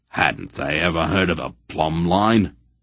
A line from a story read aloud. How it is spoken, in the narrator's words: he muttered critically